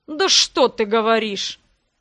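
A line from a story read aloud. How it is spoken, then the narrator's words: Growl. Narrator (Russian): прорычал первый голос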